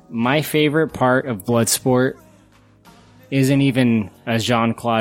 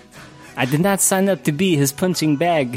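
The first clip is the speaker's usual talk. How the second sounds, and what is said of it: Good impression of young JCVD's accent. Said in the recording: “that kid's fucking accent ... Sounds exactly like JCVD. ... That's a really good impression”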